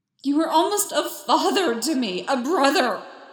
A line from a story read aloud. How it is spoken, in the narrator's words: Anakin screamed